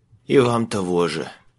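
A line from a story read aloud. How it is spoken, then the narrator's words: Hoarse reply. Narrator (Russian): прохрипел в ответ Майлз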